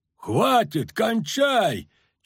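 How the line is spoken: Yelled. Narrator (Russian): чуть ли не сразу заорал Золтан Хивай

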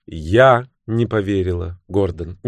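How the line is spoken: Soft. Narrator (Russian): мягко сказала Бриджит

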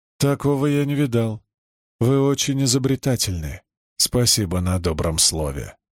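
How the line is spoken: Hoarse wheeze. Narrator (Russian): прохрипел Маркус

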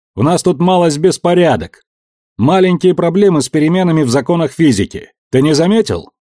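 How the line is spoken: Shouting again. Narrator (Russian): Кричавший первым снова заорал

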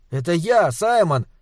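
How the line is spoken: Boy shouting. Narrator (Russian): крикнул мальчик

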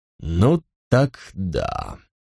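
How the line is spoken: Muttered aside. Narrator (Russian): пробормотал он не мне, а стоящему за моей спиной старшему

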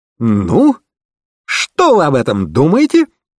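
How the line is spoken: Showman's loud exclamation. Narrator (Russian): воскликнул детектив с видом балаганного зазывалы, желающего привлечь внимание публики к выступлению

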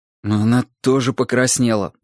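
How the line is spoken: Grumbled. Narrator (Russian): буркнул Грым

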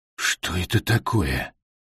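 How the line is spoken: Whispered. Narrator (Russian): прошептал Колли

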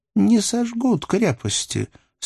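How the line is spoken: Calm. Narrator (Russian): сказала роса спокойно

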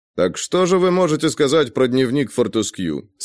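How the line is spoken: Plain. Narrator (Russian): спросил Грей

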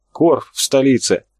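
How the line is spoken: Breathed out. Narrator (Russian): выдохнул чернявый Карабаев

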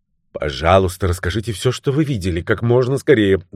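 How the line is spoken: Quick urgent. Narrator (Russian): быстро сказала Таппинс

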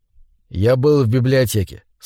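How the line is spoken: Calm. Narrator (Russian): спокойно сказал он

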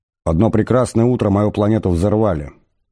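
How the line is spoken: Plain. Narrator (Russian): сказал Артур

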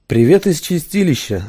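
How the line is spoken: Even flat voice. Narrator (Russian): сказал он ровным голосом

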